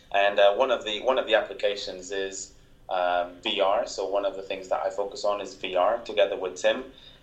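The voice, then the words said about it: Portuguese accent. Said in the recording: “my Portuguese accent”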